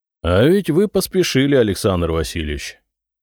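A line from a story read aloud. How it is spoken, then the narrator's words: Plain. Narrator (Russian): сказал он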